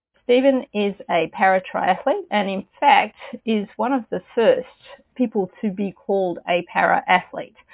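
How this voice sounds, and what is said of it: Speaks with a noticeable accent. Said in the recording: “I love the accent”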